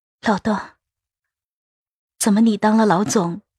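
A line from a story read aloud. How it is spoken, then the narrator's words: Sorrowful voice. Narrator (Chinese): 声音悲凉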